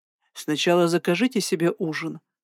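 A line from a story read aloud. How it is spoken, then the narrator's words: Calm. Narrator (Russian): сказал он спокойно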